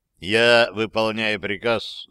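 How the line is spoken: Plain. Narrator (Russian): сказал Хайслер

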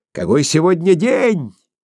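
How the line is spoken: Shouting. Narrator (Russian): прокричал он

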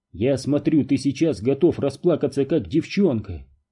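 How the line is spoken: Plain. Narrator (Russian): сказал Дью

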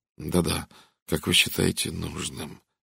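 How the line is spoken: Mechanical muttering. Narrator (Russian): механически пробормотал Редферн

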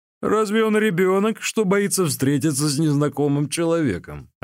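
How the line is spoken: Laughing. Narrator (Russian): рассмеялся Ли Куй

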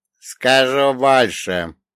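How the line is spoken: Old man's chuckle. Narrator (Russian): хохотнул старик

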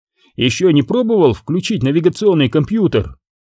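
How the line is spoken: Gruff bark. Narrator (Russian): Чуви что-то рявкнул

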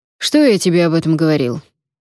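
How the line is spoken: Sharp. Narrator (Russian): резко сказал Фишер

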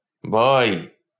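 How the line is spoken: Hoarse, frightening shout. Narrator (Russian): крикнул Полунин, и голос его прозвучал хрипло и страшно

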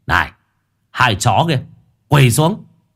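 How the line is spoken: Shouting. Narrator (Vietnamese): có kẻ thì hét lên

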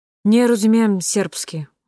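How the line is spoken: Tired. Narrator (Russian): устало сказала Аня

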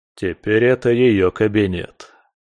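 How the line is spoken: Holding forth. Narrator (Russian): продолжил меж тем вещать

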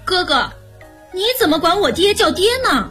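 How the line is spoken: Playful young child. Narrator (Chinese): 年小 觉得好玩，便说

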